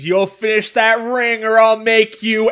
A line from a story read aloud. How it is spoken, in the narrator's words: he screams